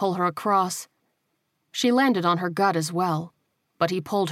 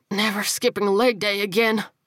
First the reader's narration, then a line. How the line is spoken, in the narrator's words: he wheezed